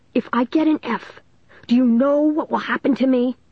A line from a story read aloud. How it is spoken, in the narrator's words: Dennis cried